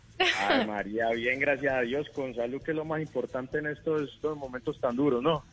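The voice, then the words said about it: Strong Paisa Colombian Spanish accent. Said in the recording (Spanish): “ese acento tan paisa ... paisa ... ese acento puro paisa, paisa de Nueva York”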